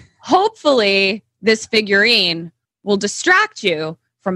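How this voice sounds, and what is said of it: Usual voice. Nothing is said of it.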